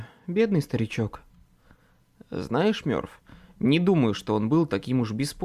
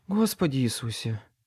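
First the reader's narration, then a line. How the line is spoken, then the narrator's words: Breathless exclamation. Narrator (Russian): выдохнула Мёрфи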